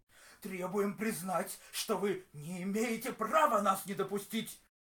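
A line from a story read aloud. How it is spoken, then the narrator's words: Young man yelling. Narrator (Russian): Орал молодой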